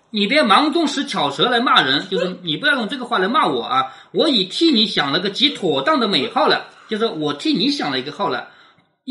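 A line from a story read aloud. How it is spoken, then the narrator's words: Laughing. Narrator (Chinese): 探春就笑着说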